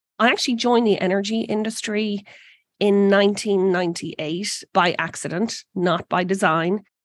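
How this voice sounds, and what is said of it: Irish accent. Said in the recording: “as you can probably tell from the accent, I'm not originally from Texas. I'm actually originally from Ireland”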